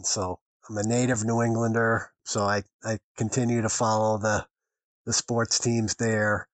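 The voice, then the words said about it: Boston accent. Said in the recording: “You probably can tell from my accent that I'm originally from Boston.”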